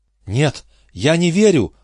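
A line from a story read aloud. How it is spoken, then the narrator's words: Incredulous exclamation. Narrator (Russian): воскликнула миссис Макосланд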